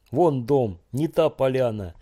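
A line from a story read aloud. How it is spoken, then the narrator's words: Shouting. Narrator (Russian): кричал тот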